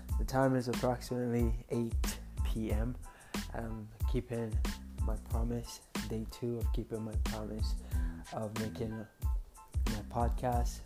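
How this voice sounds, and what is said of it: Voice sounds off, slightly sick. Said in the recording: “My voice sounds funny. I think I'm getting sick”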